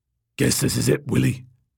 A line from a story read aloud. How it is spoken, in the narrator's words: said, his voice a low, guttural rumble